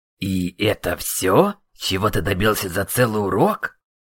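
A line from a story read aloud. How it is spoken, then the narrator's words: Annoyed question. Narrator (Russian): С досадой спросил магистр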